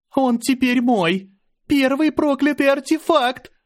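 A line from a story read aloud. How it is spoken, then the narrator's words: Joyful shouting. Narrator (Russian): Она кричала так радостно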